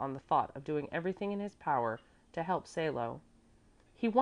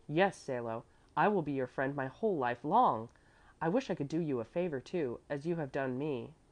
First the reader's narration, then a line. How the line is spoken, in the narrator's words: cried out with beaming eyes